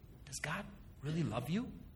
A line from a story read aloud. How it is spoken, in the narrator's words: the serpent whispered